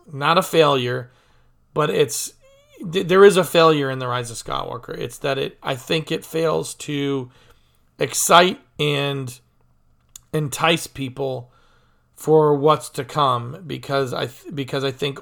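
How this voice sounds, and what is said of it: Voice going hoarse. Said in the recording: “I'm losing my voice over it here”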